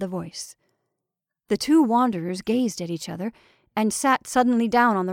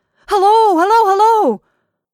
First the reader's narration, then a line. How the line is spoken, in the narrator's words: They puffed out their cheeks and began to shout